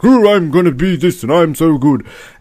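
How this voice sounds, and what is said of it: Imitates a TV character's voice. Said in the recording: “my impersonation of Chloe ... that's what Chloe always sounds ... It was spot on.”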